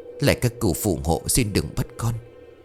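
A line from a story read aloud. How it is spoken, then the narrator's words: Old woman's muttered prayer. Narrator (Vietnamese): miệng lẩm bẩm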